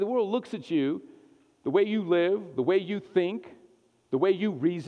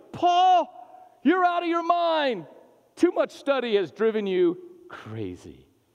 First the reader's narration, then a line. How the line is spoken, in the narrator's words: Festus said loudly